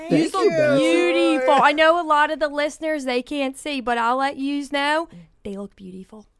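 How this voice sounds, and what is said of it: Put-on regional accent. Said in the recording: “Flamingo is a good word to say in that accent.”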